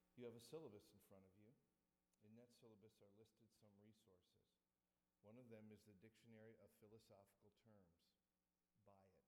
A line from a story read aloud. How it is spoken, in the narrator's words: he very quietly said